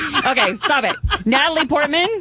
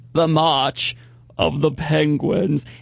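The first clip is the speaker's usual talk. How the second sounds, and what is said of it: Strained very low-pitched imitated voice. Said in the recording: “my Morgan Freeman impression ... That hurts to go that low ... You sound like Yosemite Sam.”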